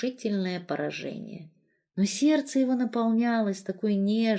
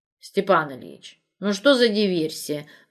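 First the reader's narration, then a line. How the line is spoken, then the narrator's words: Old woman grumbling. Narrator (Russian): ворчала баба Шура из дома номер 9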